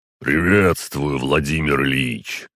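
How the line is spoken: Booming bass voice. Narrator (Russian): сказал он своим гулким басовитым голосом

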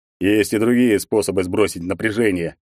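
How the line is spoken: Snorting reply. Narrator (Russian): хмыкнул ей в ответ Егор

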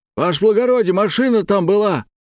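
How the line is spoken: Shouted. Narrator (Russian): крикнул один из дорожников

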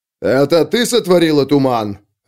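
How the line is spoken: Barking. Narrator (Russian): рявкнул он на старуху

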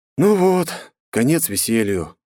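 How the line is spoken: Sad. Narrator (Russian): грустно обратился к Жорику

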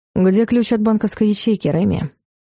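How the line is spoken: Quiet question. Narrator (Russian): тихо спросил Дарс

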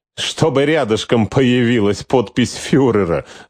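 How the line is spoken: Laughing. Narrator (Russian): рассмеялся

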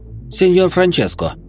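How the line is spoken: Exaggeratedly cheerful. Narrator (Russian): преувеличенно бодро произнес я

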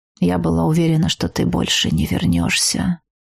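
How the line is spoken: Quiet. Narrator (Russian): тихо произнесла она

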